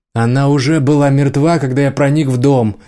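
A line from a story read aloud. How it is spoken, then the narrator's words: Shouting. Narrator (Russian): закричал Рики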